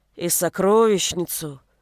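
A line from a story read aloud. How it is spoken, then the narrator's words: Sighing male helper. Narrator (Russian): вздохнул его одноглазый помощник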